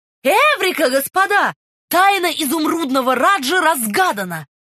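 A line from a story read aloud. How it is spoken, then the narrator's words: Shouted. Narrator (Russian): Свит Чайлд крикнул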